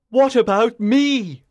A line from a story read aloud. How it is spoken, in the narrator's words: he cried in desperation